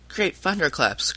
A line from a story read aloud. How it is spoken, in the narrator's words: cried Tom